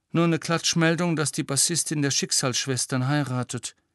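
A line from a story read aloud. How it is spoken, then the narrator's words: Sigh. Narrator (German): seufzte sie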